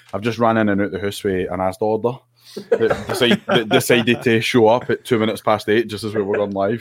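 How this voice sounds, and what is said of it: Out of breath, panting speech. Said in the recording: “I'm out of breath, man. ... I'm just trying to catch my breath”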